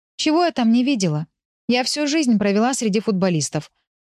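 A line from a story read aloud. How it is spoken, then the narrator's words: Snort. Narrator (Russian): фыркнула я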